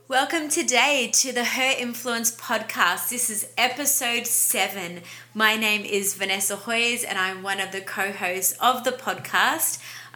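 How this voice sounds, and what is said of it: Australian accent. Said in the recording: “I'm an Aussie, yes, that's what the accent is.”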